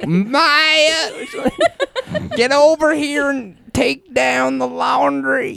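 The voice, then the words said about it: Put-on Southern accent. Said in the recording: “She is not from the South. ... her family is. ... Where do you think she got that accent?”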